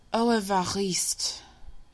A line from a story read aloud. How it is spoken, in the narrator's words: she said with a sigh